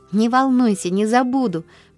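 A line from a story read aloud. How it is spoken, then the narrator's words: Joyful, confident promise. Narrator (Russian): пообещала Полианна радостно, уверенная на этот раз, что выиграла дело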